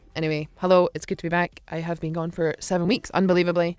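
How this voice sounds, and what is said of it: Scottish accent drifting toward American. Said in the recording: “my old and improved Scottish accent. I can tell already it's drifted back to American.”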